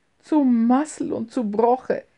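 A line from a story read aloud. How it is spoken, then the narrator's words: Half-loud call. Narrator (German): rief sie halblaut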